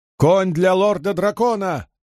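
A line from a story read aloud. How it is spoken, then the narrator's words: Booming shout. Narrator (Russian): зычно выкрикнул он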